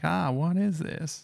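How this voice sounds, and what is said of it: Put-on American accent. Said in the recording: “That's my American accent. ... Oh, yeah, that's pretty good.”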